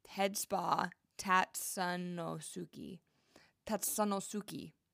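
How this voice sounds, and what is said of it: Attempted Japanese accent on a name. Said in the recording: “That was my best Japanese accent.”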